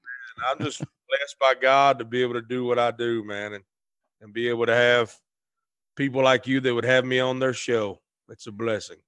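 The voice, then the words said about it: Southern American twang. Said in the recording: “it's just nice to speak with a southerner again ... I need to hear a familiar twang”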